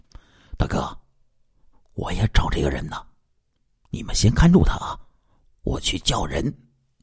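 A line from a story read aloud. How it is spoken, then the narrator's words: Young man, low voice. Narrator (Chinese): 黑脸小伙低声的说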